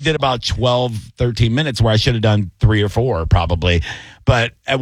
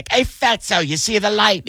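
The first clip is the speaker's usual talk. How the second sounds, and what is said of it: Poor impression, sounds British. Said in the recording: “your Bobby impression of that was terrible. ... But it sounded very British.”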